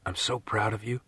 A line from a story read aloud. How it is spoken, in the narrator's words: he whispered